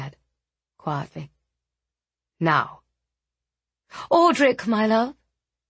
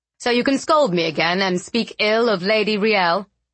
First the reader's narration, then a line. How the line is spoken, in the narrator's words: Audric said it loudly enough for everyone still in the room to hear